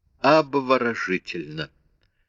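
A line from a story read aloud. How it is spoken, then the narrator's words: Exclaimed. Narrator (Russian): воскликнул он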